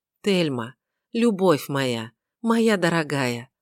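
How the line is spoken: Trembling voice. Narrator (Russian): сказал он дрогнувшим голосом

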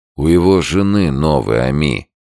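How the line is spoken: Gloomy. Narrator (Russian): мрачно сказал Новиков

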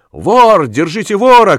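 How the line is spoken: Shout. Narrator (Russian): крикнул колбасник

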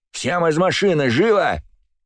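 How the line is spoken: Yelled. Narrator (Russian): заорал Мухомор

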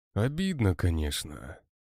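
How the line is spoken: Sighing. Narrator (Russian): вздохнул Сергей

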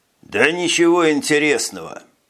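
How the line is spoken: Muttered grumble. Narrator (Russian): пробурчал Скабид

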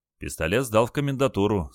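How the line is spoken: Calm answer. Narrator (Russian): спокойно ответил Олег

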